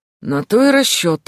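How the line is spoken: Wry snort. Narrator (Russian): хмыкнул Джун

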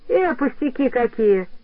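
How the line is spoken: Cheerful dismissal. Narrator (Russian): отмахнулась весело Нэнси

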